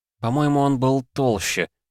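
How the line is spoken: Uncertain. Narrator (Russian): неуверенно сказала Варвара

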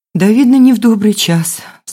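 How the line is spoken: Sighing. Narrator (Russian): вздохнула Елена

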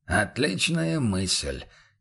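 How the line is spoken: Quiet voice. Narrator (Russian): негромко поддал голос Бруно

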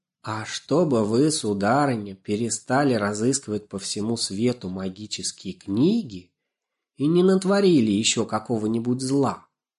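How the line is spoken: Calm, pressing. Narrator (Russian): спокойно продолжал наступление Лешек

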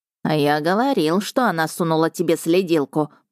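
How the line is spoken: Creaky rasp. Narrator (Russian): проскрипел напарник

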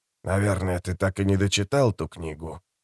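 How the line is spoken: Quiet question. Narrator (Russian): негромко спросил Розенфельд

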